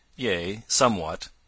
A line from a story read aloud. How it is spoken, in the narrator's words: answered the other dryly